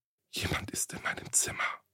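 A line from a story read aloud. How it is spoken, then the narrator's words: Frightened young woman whispering. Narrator (German): flüsterte die junge Frau verängstigt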